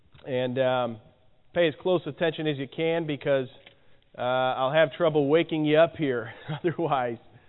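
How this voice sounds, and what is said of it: Hoarse, failing voice. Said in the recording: “As you can hear, I'm losing my voice.”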